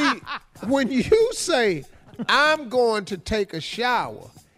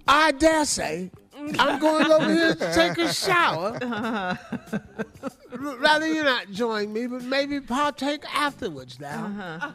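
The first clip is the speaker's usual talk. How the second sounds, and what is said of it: Put-on British accent. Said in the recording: “say it in a British accent”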